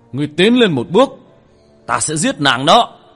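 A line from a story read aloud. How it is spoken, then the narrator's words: Fierce threatening shout. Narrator (Vietnamese): Thần tôn vội vàng lui về đằng sau, một khuôn mặt dữ tợn hét lên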